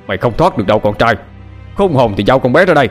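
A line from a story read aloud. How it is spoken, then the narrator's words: Shouted. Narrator (Vietnamese): Bình hét về phía xuồng máy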